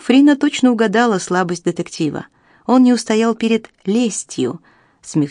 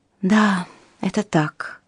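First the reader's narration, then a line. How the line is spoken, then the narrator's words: Sigh. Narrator (Russian): вздохнула Амелия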